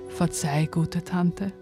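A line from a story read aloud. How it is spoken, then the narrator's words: Quiet dog's voice. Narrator (German): Der Hund sprach leise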